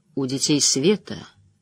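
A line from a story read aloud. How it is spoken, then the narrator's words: Quiet man's voice. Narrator (Russian): тихо произнес мужчина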